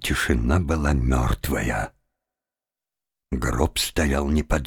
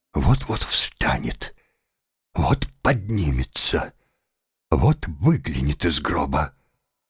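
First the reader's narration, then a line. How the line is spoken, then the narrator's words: Inner whisper. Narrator (Russian): невольное чувство, казалось, шептало ему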